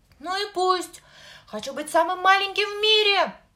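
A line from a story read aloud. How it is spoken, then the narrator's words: Child shouting through tears. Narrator (Russian): Сквозь слезы кричал малыш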